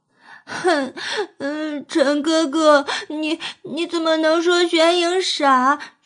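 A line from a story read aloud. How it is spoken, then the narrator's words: Aggrieved tearful complaint. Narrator (Chinese): 娄显影委屈的哭诉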